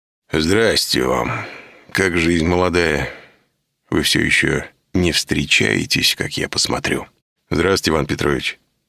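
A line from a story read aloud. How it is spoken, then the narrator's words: Flustered mumbling. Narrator (Russian): раскрасневшись, промямлил Никита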